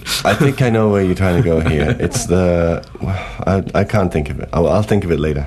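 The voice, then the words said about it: Congested, stuffy voice. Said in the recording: “congested. I'm congested. I've got a cold. ... I kind of like how my voice sounds with a cold”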